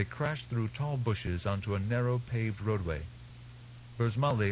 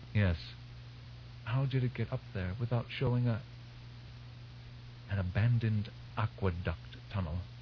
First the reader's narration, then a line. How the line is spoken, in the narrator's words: Burzmali whispered